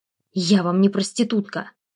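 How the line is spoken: Hissed through teeth, restrained anger. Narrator (Russian): прошипела я сквозь зубы, едва сдерживая гнев

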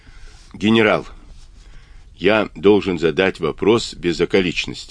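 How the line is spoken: Plain. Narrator (Russian): сказал Авраам

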